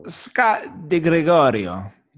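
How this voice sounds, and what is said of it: Put-on Italian accent. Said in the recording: “do your Italian accent.”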